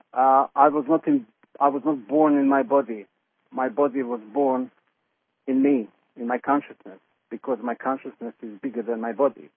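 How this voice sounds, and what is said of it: Mixed Eastern European and Yorkshire accent. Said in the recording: “my accent is a mixture between heavy Eastern European accent and heavy Yorkshire accent ... I have a very unique accent”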